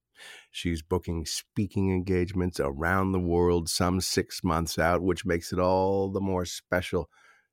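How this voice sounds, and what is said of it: Smooth radio announcer voice. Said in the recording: “in that fantastic radio voice.”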